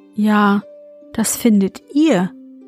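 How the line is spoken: Plain. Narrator (German): sagte sie

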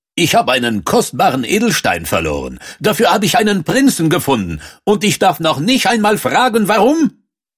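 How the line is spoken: Loud blustering. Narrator (German): Doch der Schah polterte

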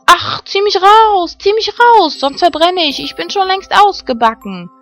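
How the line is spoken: Bread shouting. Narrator (German): schrie das Brot wieder

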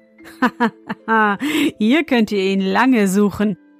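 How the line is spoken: Laughing. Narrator (German): lachte er

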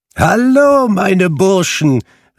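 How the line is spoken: Calling out. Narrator (German): rief Fezziwig

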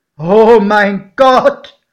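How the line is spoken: Calling out. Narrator (German): rief mein Pate

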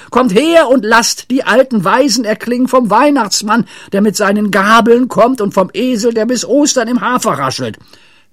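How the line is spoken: Shouting. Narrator (German): schrie Pippi

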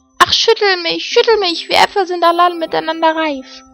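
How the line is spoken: Apple tree calling. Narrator (German): dem Apfelbaum, der rief

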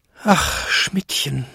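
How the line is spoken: Despairing old man's groan. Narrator (German): stöhnte Jakob in plötzlicher Verzweiflung, als er seine alten Beine zittern fühlte

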